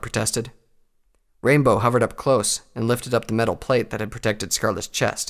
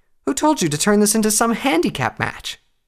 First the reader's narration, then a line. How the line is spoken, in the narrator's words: she asked indignantly